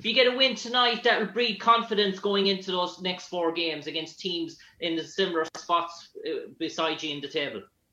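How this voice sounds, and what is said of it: Irish accent. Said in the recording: “Anthony Edwards Irish ... Where are you from? Ireland. I like your accent.”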